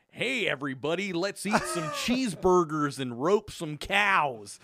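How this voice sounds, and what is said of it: Exaggerated mock American accent. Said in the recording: “people like from Europe do an American accent”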